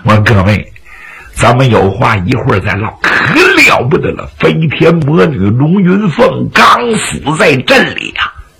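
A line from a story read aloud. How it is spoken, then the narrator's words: Suddenly stern and serious. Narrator (Chinese): 老方突然正言厉色地说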